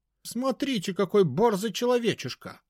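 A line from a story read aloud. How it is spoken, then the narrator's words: Shouting, fairy. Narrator (Russian): крикнул фей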